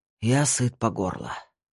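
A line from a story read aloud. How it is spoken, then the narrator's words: Hoarse rasp. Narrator (Russian): прохрипел он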